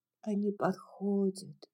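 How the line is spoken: Whisper. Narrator (Russian): прошептала Мелани

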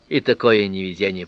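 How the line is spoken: Grumbled. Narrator (Russian): проворчал

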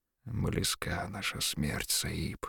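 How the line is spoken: Quiet. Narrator (Russian): тихо сказал Бахрам

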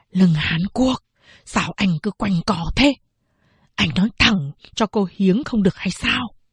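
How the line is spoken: Quick-tongued, quiet. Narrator (Vietnamese): Triệu Giáp làm nghề bán vỏ bếp lò vốn nhanh miệng, nói khẽ

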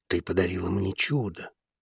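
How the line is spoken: Whisper. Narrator (Russian): прошептал он

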